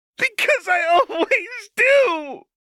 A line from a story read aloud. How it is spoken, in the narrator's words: she screamed